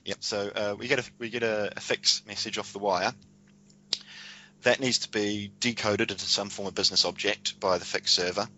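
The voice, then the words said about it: Accent where 'fix' sounds like 'fax'. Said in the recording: “Did you say fax, like a paper fax? ... That'll be my accent.”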